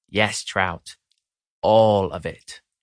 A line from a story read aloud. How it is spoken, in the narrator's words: he says